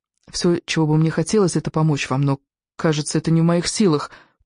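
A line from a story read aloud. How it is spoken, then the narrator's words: Wistful whisper. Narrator (Russian): прошептала она тоскливо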